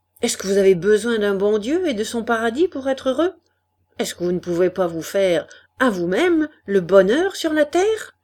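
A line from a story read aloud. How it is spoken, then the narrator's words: Ardent, endless speech. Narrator (French): D'une voix ardente, il parlait sans fin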